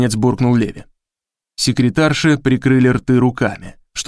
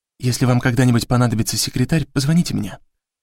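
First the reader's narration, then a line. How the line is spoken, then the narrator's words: Secretive whisper. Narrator (Russian): шепнула одна из них, стараясь, чтобы Леви ее не услышал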